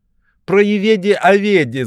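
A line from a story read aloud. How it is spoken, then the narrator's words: Group shouting. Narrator (Russian): закричали одни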